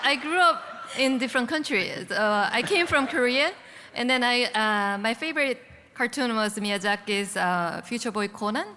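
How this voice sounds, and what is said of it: Foreign accent in English. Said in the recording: “I have this accent.”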